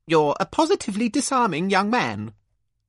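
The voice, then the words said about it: Posh voice. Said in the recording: “in a posh voice”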